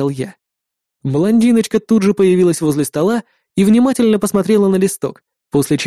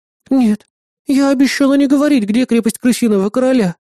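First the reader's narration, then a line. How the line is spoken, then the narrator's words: Heavy-sighing reply. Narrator (Russian): тяжко вздохнув, ответила убийца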